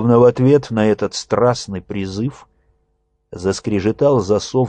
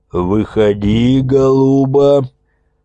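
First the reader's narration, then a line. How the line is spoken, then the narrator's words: Growl then guffaw. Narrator (Russian): прорычал кто-то и захохотал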